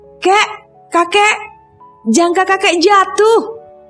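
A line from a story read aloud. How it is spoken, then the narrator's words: Small boy shouting. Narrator (Indonesian): teriak Rudi kecil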